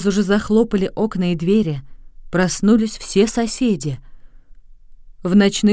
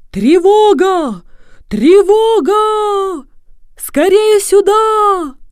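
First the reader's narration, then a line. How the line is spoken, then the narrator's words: Loud shouting. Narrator (Russian): Профессор Тиболла закричал на всю улицу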